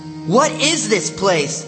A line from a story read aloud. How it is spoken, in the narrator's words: I shouted